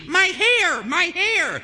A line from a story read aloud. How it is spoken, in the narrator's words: A woman is shrieking